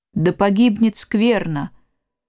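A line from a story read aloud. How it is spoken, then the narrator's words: Tired curt remark into phone. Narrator (Russian): Устало бросил в трубку стоящий спиной человек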